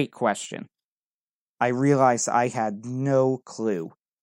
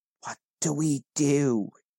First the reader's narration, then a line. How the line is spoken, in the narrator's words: whispered, barely audible